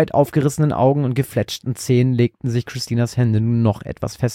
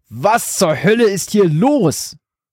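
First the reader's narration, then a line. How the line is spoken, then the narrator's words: Roaring, panting. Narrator (German): brüllte ihr Vater keuchend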